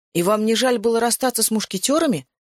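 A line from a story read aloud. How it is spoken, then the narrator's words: Exclaiming. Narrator (Russian): воскликнул Феликс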